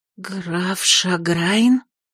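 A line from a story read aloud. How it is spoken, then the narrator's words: Suddenly hoarse, polite question. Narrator (Russian): разом охрипнув, вежливо осведомилась Терлина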